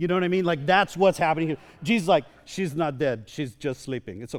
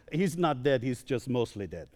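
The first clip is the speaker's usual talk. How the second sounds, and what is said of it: Deliberately bad put-on accent. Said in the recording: “that's a horrible accent, by the way. It's a horrible accent. I don't even know what, that, what accent that's from.”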